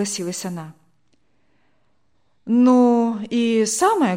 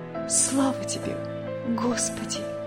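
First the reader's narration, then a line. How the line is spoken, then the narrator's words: Whisper. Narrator (Russian): прошептала она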